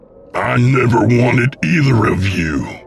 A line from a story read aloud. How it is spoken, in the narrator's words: William said with a snarl